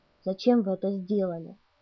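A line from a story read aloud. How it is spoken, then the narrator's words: Quiet question. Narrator (Russian): спросил тихо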